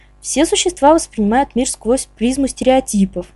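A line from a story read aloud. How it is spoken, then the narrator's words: Thoughtful. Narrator (Russian): задумчиво проговорил Боджи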